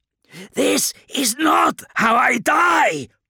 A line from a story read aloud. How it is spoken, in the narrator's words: Kurz's shout was desperate, a mixture of anger and confusion